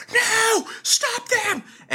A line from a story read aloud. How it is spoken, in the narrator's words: she's like screams like